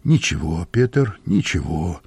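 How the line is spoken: Gentle. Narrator (Russian): ласково сказал хозяин

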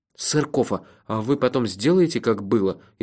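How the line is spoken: Frightened. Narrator (Russian): испуганно спросил я

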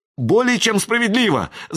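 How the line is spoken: Fawning babble. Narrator (Russian): заискивающе пролепетал Джон

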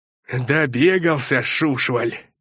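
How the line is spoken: Growling. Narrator (Russian): рыкнул косматый привратник

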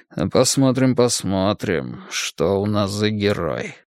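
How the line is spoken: Muttered. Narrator (Russian): пробормотал Борман

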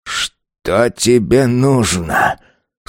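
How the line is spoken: Hoarse question. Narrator (Russian): снова хрипло спросил Автарх

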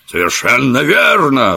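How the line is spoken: Exclaimed. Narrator (Russian): воскликнул Челленджер

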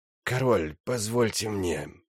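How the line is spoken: Creaky voice interrupting. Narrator (Russian): прервал его Брукалак своим скрипучим голосом

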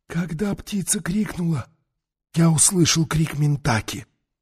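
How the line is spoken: Whispered. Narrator (Russian): прошептал Таита

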